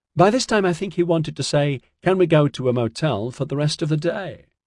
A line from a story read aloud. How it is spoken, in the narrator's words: Melanie laughed